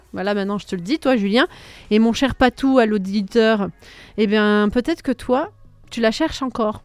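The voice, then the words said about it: Put-on Belgian French accent. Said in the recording (French): “Pourquoi tu prends l'accent belge ?”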